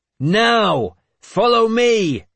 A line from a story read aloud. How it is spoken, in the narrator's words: I shouted